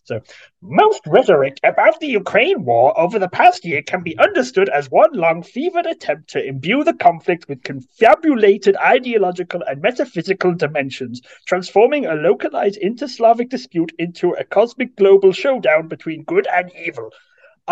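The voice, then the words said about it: Imitates another person's voice. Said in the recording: “I've only heard him scream ... my best Michael Tracy impression”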